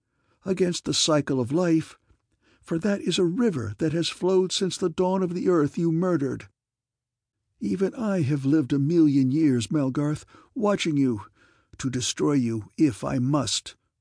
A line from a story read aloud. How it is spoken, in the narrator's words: gasped wildly